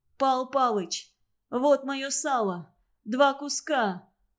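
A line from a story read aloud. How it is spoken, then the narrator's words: Sobbing. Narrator (Russian): Несчастный Манич, рыдая, сказал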